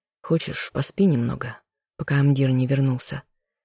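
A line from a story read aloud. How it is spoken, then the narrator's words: Soft offer. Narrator (Russian): предложил тихо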